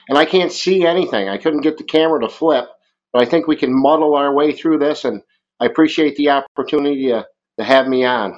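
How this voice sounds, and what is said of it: Strong rural Vermont New England accent. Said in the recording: “this great Midwestern accent ... I've got a very solid Vermont accent ... That's a redneck woodchuck”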